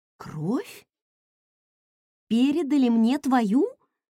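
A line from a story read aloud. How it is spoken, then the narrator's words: Confused question. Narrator (Russian): растерянно переспросила я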